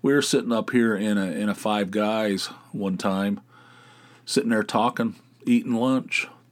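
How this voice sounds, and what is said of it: West Virginia accent. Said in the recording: “I get comments about my accent too. I don't even think it's that bad ... raised 50 yards from each other in Dunbar, West Virginia ... are you two from Alabama?”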